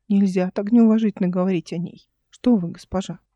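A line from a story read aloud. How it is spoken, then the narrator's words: Silky insinuating correction. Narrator (Russian): вкрадчиво поправил ее Урсу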